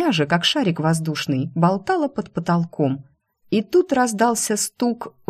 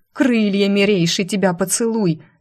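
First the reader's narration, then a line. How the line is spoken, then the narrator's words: Barking. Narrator (Russian): рявкнула Нуя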